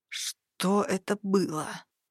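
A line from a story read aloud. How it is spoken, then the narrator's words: Elf's moan. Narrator (Russian): простонал эльф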